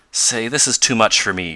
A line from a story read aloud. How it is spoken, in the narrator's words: exclaimed Tom